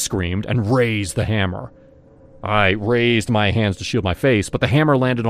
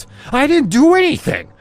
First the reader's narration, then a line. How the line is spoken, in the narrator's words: I screamed